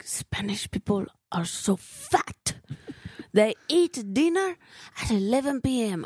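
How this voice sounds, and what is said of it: Put-on unidentified accent. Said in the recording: “I don't know what accent I'm doing”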